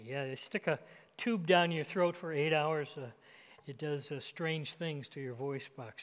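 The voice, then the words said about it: Raspy, strained voice. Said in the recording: “You can pray for my voice. I don't know if you can tell, but feels raspy. Raspy.”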